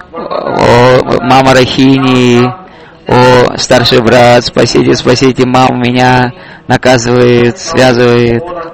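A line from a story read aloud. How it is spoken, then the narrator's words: Loud shouting. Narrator (Russian): Он громко кричал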